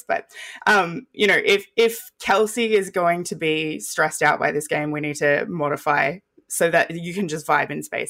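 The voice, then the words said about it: Voice going hoarse. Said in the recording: “I'm getting so excited, I'm losing my voice.”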